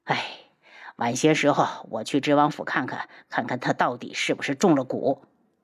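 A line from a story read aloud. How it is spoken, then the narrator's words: Sad sigh. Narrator (Chinese): 见他神情忧伤，漫天妖叹了口气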